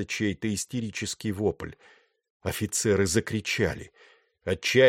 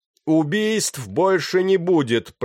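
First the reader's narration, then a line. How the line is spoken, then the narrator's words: Shouting through cupped hands. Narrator (Russian): прокричал он, сложив руки рупором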